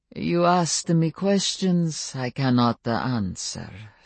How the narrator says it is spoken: said Stefan calmly, but his voice had warmed to more human cadences

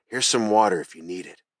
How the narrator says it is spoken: I whispered

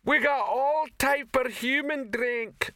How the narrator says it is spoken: shouted the female troll

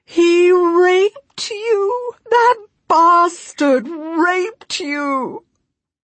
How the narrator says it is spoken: I can no longer hold it inside, and I wail

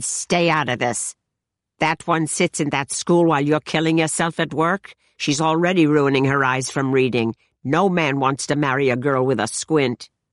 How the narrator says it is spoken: My mother almost never snapped at Celia, but she said

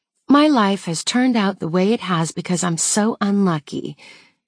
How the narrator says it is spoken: she says, mimicking me in a dramatically saccharine voice

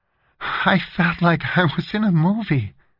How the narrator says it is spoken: Valerie said in a shaken voice

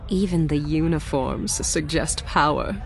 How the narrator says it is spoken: she murmured

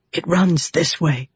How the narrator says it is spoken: he whispered

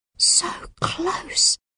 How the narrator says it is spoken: Melanie whimpers

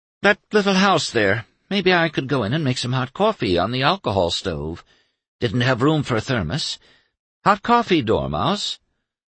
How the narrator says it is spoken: Emma, sighing, said humbly

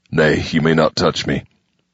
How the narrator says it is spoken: he said stiffly

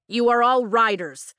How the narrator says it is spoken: he shouts

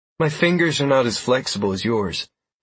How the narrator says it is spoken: Galmine said with a pleasant laugh

